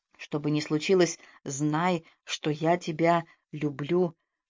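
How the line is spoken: Whispered. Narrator (Russian): шепнул

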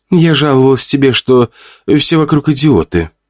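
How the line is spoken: Sighed. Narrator (Russian): вздохнула она

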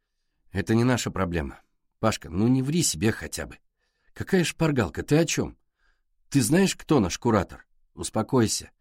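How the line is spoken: Gentle. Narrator (Russian): мягко сказал Пашка

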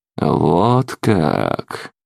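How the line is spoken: Drawled. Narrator (Russian): Протянул я

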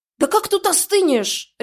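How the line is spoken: Barking. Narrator (Russian): рявкнула

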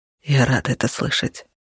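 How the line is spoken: Whispered. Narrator (Russian): шепнул он

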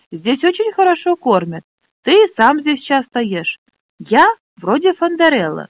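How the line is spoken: Plain. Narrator (Russian): сказал Флесан

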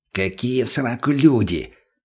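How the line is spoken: Angry whisper. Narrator (Russian): злым шепотом ответил Бурый

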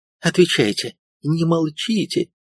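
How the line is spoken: Exclaiming. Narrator (Russian): воскликнула она

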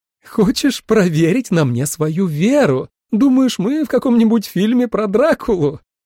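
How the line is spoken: Mocking loud laughter. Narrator (Russian): Темный силуэт Сьюзан расхохотался

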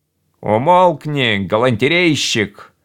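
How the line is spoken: Rude. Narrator (Russian): грубо сказал Кахиня

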